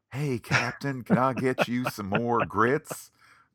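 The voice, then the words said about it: Put-on Southern US accent. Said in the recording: “Maybe a Southern accent”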